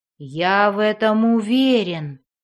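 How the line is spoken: Gloomy remark. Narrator (Russian): мрачно заметил

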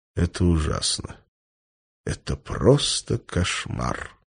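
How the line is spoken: Said quietly. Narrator (Russian): негромко сказал

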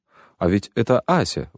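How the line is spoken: Exclamation. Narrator (Russian): воскликнул Гагин

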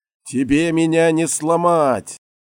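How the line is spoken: Pained shout. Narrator (Russian): закричал Федор, борясь с болью

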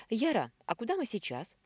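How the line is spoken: Frightened question. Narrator (Russian): спросила моя подруга Белинда, испуганно озираясь

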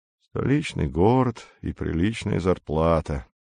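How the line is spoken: Quiet. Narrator (Russian): сказал Бородатый негромко

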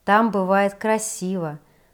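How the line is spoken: Sighing. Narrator (Russian): вздохнула я

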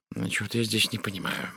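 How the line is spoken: Muttering. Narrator (Russian): бормотал Пуаро

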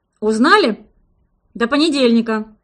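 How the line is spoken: Boss growling. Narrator (Russian): рыкнул начальник

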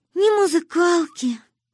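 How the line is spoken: Sighing. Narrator (Russian): вздохнула Манюня

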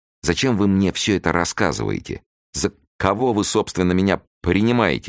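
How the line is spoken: Irritated, heavy stuttering. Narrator (Russian): спросил Фондорин от раздражения, заикаясь сильнее обычного

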